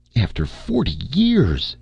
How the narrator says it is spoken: she exclaimed

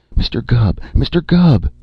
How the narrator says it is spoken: she gasped

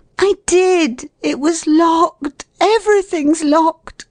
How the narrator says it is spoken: said in a tragic voice

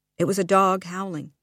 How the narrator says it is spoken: said firmly

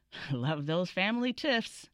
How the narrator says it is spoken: Richard chuckled

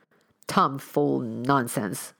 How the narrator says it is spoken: grumbled the Colonel

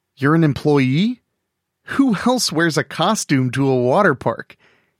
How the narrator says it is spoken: he chuckled

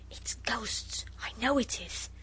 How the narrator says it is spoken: Noel whispered

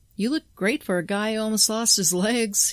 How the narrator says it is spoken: laughed

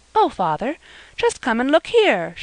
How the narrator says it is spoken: she exclaimed

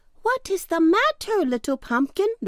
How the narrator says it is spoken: they cried

